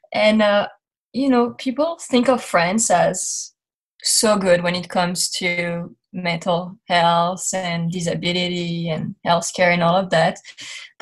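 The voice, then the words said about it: French accent in English. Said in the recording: “I grew up in France. You're going to hear my accent”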